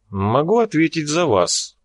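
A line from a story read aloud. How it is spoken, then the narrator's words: Dry businesslike tone. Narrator (Russian): произнес суховатым деловым тоном, в котором уже не было и следа добродушия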